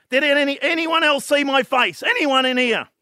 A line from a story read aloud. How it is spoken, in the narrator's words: he yells out